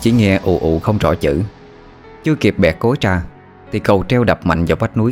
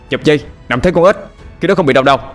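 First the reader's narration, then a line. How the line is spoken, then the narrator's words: Loud shout. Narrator (Vietnamese): anh Hùng quát lớn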